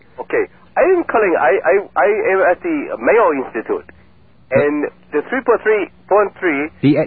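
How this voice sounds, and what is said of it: Speaks with an accent. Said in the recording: “Why is it everyone tonight has an accent?”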